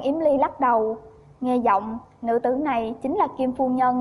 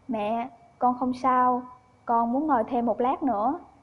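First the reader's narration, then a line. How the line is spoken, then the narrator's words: Soft voice. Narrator (Vietnamese): Giang Yếm Ly nói khẽ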